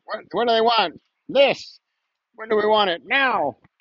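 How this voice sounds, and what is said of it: Chanting like a protester. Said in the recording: “I sound like a protester.”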